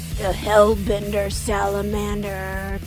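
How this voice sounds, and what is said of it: Poor heavy-metal style voice. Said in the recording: “that was not a good metal impression”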